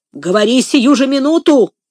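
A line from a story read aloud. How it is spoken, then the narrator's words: Barked, furious. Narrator (Russian): рявкнул Легри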